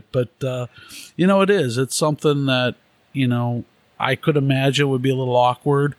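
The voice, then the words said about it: Distinct Chicago accent. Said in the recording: “a guy from Chicago ... my accent is pretty distinguished, and it is different”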